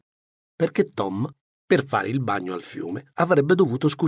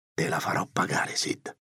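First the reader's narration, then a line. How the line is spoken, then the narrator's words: Muttering to himself. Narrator (Italian): borbottava Tom tra sé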